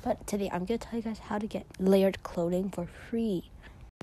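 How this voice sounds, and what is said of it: Odd-sounding morning voice. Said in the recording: “my voice sounds really weird, it's in the morning”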